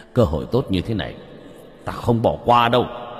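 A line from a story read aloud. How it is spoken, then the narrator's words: Loud laughter. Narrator (Vietnamese): Hắn cười lớn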